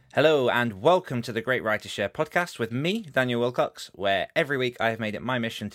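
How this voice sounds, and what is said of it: Slightly rough, sore-throated voice. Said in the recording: “I have a bit of a sore throat.”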